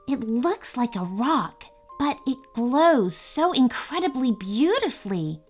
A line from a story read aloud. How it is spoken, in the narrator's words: Emily whispered